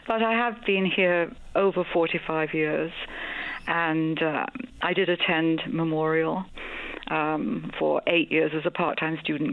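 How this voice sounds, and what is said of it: Noticeable non-local accent. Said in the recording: “I'm not from here originally. You can probably tell by the accent... It's a lovely accent.”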